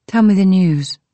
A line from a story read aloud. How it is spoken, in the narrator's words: said